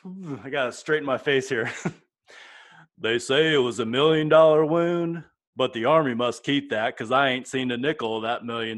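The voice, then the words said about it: Forrest Gump impression. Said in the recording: “Was that Forrest Gump? ... Forrest Gump, yeah.”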